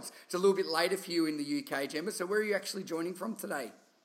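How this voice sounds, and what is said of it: Thick Australian accent. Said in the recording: “a thick Australian accent like myself”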